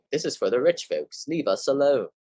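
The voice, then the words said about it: Put-on accent. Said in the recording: “I don't know why I say it in that accent”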